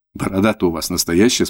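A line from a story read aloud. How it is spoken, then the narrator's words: Plain. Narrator (Russian): спросила Таня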